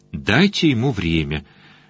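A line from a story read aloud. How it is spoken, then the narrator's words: Soft advice. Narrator (Russian): мягко посоветовал я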